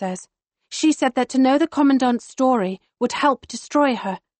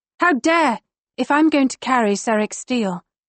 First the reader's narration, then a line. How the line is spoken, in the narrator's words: Lyra says quite calmly